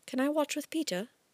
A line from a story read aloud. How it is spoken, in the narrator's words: Kit asked in a small voice